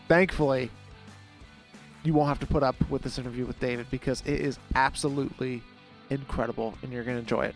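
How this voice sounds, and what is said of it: Voice sounding off, sick. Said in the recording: “why is ... voice sounding a little bit off today? ... I have a cold. ... my less than stellar voice”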